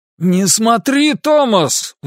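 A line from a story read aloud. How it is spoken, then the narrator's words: Sudden alarmed shout. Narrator (Russian): вдруг прокричал отец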